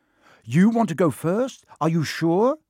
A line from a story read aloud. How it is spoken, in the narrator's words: said Ron